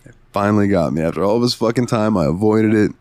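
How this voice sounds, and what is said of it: Weird, extra deep voice. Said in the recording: “my voice sounds weird or extra deep at the moment, your boy's got COVID”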